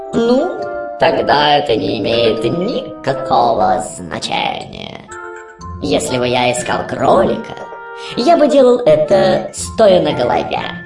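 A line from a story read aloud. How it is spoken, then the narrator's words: Purring cat. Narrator (Russian): мурлыкнул кот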